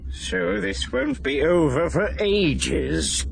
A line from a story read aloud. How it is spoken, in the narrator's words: Senator Noir all but moaned